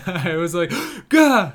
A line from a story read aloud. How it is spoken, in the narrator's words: I gasped